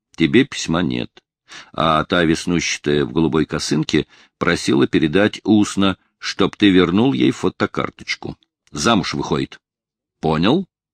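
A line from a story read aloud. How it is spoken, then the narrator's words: Several voices, laughing. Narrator (Russian): Сквозь смех слышатся голоса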